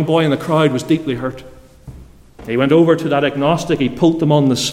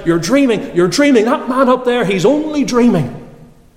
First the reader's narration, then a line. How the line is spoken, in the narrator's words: he began to shout out